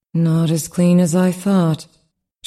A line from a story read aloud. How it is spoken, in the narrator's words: she smiled tightly